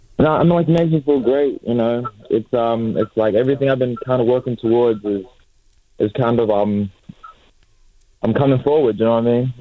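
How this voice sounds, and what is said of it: American-sounding accent. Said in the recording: “is there an American accent there?”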